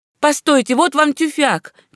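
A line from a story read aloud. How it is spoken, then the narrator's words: Woman shouting. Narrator (Russian): кричала госпожа Дезальё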